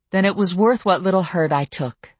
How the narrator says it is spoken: I said firmly

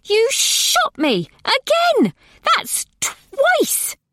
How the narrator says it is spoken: shrieked from the floor

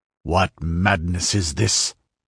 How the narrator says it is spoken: growled the Cimmerian harshly, not relishing the man's words or manner

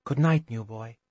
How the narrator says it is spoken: softly muttered

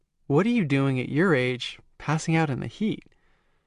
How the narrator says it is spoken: Carolyn sighed

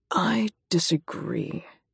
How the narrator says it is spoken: he says slowly

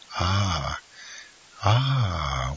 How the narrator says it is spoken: whispered Monte Cristo with a smile of disappointment

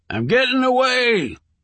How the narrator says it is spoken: bellowed

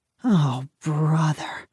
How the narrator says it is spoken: my father moaned

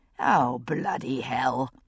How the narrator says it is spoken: I murmured to myself

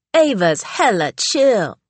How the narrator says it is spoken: said a sneaker designer who spoke in a 90s slam poetry voice

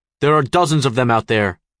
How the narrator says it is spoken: he snaps

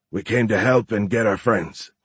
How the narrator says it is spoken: Horn grunted

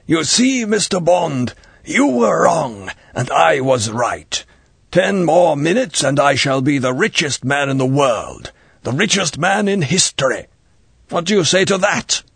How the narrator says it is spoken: His mouth spat out the words

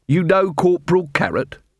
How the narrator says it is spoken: Vimes snorted

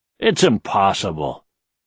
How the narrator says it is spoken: Kyine grumbled

